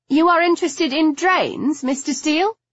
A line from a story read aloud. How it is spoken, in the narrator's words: I asked brightly